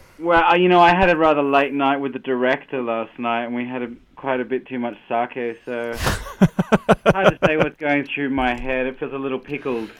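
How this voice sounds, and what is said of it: Australian accent. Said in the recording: “with your accent you can make hungover sound so charming ... I am a sucker for an Australian accent ... I am completely in a trance from your accent”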